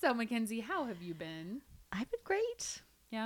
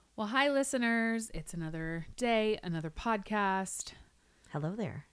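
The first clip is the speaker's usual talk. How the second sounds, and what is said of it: Smooth announcer-style radio voice. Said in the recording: “that was beautiful... my new radio voice.”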